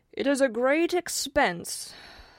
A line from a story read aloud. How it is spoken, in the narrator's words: sighed the king